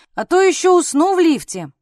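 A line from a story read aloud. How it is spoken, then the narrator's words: Shouted while running. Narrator (Russian): А Сашка ... крикнув на ходу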